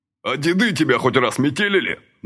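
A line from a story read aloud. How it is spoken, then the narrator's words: Enraged barking. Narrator (Russian): наливаясь кровью, рявкнул Василий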